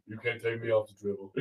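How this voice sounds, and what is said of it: Imitates another person's voice. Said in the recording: “Do your Shaq impersonation.”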